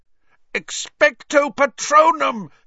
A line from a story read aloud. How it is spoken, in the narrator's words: Harry yelled